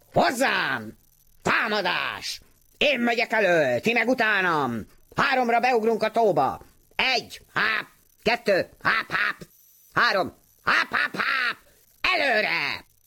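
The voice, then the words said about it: Loud, combative duck character voice. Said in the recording (Hungarian): “harciasan hápogott, mutogatott, és fennhangon számolt”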